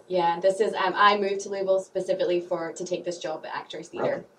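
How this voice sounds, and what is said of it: Scottish accent. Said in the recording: “I love your accent ... Scottish ... My Scottish southern drawl ... I'm originally from Edinburgh, Scotland.”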